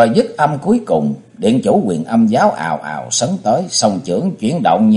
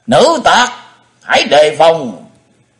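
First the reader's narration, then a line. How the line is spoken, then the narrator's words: Fierce booming shout. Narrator (Vietnamese): Một điện chủ hùng hổ thét như chuông đồng vọng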